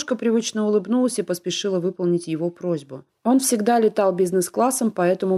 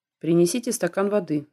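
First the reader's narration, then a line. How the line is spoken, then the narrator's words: Stern request. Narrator (Russian): строго попросил он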